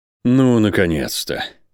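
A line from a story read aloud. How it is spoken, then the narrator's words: Relieved sigh. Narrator (Russian): Рейн облегченно вздохнул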